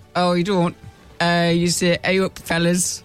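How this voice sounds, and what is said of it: Strong put-on Yorkshire accent. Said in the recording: “His Yorkshire accent is very strong... Yorkshire”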